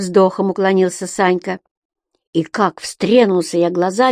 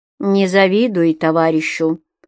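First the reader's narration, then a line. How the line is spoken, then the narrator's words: Dry rebuke. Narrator (Russian): сухо одернул его Митька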